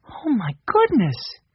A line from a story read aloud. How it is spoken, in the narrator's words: Violet exclaimed